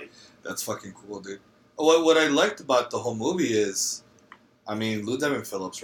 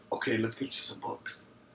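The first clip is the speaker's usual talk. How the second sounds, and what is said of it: Impression of Edward James Olmos. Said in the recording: “your Edward James almost impersonation was spot on”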